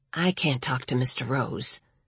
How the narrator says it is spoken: Patricia said under her breath, barely audible, even in the quiet library

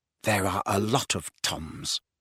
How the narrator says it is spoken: muttered Riddle

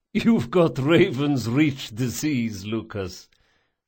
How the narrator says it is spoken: the Don laughed

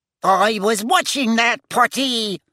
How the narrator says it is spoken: he told Harry indignantly

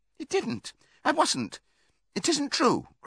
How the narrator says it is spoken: cried Molly

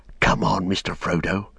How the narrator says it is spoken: he whispered

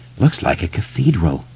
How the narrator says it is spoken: Beverly said softly

